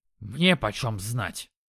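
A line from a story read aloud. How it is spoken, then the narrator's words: Snorting dog. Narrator (Russian): фыркнул пес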